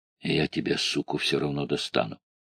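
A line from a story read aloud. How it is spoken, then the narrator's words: Quiet threat. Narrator (Russian): негромко сказал Исмаил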